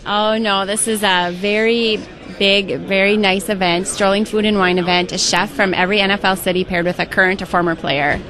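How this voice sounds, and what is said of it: Minnesota accent. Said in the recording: “where is your accent? That accent is not... Minnesota ... something was wrong with your accent”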